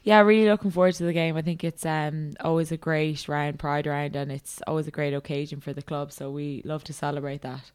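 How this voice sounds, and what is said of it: Irish accent. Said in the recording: “that accent of yours didn't originate in Australia ... my own in Ireland”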